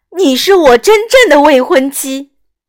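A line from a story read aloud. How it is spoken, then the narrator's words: Prince, exclaiming. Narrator (Chinese): 王子忍不住喊道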